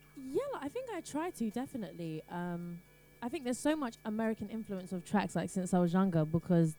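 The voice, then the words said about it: British English accent. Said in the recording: “you sing with a very British English accent. Now, that is obviously how your voice sounds”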